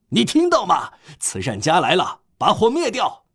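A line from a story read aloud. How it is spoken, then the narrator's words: Loud. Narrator (Chinese): 他大声说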